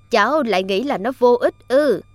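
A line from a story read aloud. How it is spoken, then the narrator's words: Kind smiling old man. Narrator (Vietnamese): Ông cụ mỉm cười hiền từ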